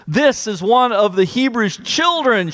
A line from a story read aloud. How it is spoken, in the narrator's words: exclaims